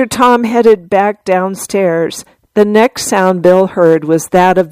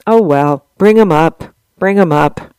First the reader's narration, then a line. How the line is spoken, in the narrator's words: With a sigh, he said to Tom